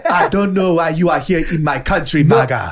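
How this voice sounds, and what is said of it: Exaggerated put-on African accent. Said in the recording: “that African accent ... It's too African.”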